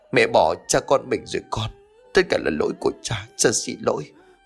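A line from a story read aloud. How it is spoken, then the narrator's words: Sobbing. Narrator (Vietnamese): Tú khóc nức nở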